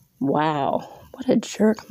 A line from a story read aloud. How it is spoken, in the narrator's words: mumbled Holly